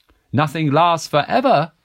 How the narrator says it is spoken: squeaked

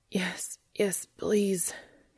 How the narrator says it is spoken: he panted, no longer sure what he was asking for

